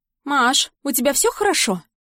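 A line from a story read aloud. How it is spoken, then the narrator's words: Suspiciously cheerful voice. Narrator (Russian): Ее голос звучит подозрительно бодро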